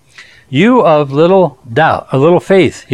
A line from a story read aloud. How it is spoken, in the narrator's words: he said